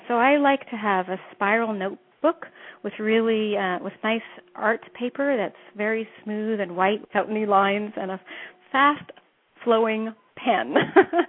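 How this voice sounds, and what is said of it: Slight Canadian accent. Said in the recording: “you can hear a little bit of my accent ... I've probably got a little bit of a Canadian accent, especially when I say A or house and about ... I hear a little bit of your Canadian accent ... My Canadian accent comes pretty strong”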